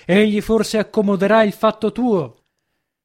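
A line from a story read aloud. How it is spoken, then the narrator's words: Shouted from a distance. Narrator (Italian): gridò dal pianerottolo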